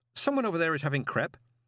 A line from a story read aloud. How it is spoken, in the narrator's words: said Miss Dearheart